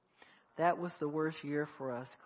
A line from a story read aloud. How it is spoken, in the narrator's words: Khaled said, sighing